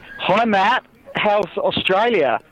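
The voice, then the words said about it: Weak put-on Australian accent. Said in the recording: “I was about to do like my an Australian impression, and I stopped myself. It's not great... Is that a good Aussie accent?... I think it needs a little work.”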